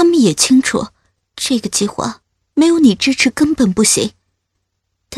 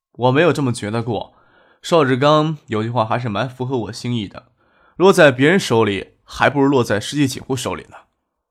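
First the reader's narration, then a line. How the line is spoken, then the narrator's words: Laughing. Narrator (Chinese): 张克笑着问，说道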